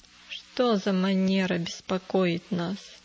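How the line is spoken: Grumbled. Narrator (Russian): проворчал он

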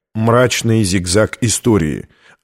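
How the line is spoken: Plain. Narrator (Russian): ответил Лэнгдон

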